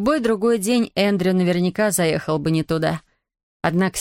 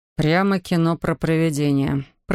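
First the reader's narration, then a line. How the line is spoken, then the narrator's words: Through gritted teeth. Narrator (Russian): процедил Эндрю сквозь зубы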